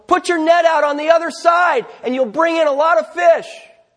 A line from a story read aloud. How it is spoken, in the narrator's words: Jesus yells from the shore